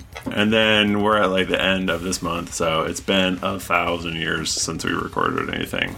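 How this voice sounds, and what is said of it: Slightly garbled, sick-sounding voice. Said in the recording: “I'm a little sick, so I apologize if my voice sounds a little extra garbly”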